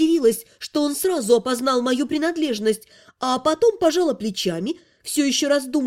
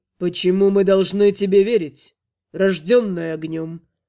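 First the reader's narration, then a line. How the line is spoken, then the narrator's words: Grim cold voice. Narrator (Russian): спросил мрачным холодным голосом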